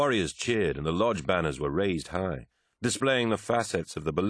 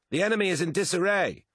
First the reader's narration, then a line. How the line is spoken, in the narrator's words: shouted Cedere over the cheering